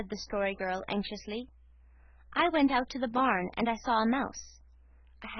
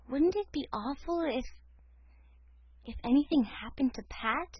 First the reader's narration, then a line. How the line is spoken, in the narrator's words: whispered Cecily